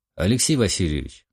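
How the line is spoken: Plain. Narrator (Russian): сказал я

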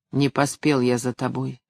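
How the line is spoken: Sad. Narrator (Russian): сказал печально

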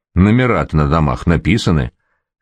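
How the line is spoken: Smirking snort. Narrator (Russian): хмыкнул котел

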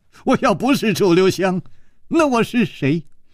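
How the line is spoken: Wry smile. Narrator (Chinese): 苦笑着说

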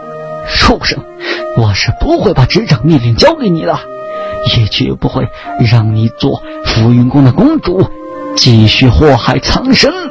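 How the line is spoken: Through gritted teeth. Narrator (Chinese): 庄上仙咬牙

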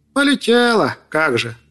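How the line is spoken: Grumbling raven. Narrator (Russian): пробурчал ворон

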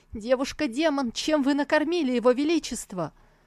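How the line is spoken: Shouting at full strength. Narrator (Russian): Он закричал, что было сил

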